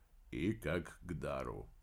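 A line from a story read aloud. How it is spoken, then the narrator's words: Quiet reply. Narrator (Russian): негромко ответил Помпилио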